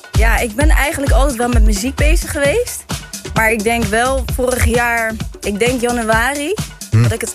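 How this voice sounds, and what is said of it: Rotterdam Dutch accent. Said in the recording (Dutch): “Rotterdam. Kan je het horen? ... Het is een lekker accent.”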